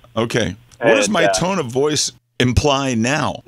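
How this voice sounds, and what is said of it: Calm, annoyed tone. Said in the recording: “Right now, it's calm and, like, annoyed.”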